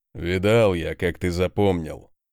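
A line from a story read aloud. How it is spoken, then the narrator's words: Deep bass voice. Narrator (Russian): пробасил Конунг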